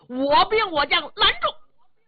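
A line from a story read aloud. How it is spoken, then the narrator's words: Loud shouting. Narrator (Chinese): 巨无霸高声喊嚷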